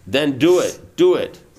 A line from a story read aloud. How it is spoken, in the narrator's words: Prabhupada interrupted him in a loud voice